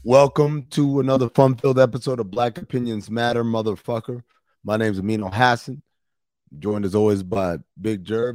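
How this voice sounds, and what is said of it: Tired, worn-out voice. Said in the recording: “As you can tell from my voice, I'm in Las Vegas and I am tired as hell... I am worn the fuck out”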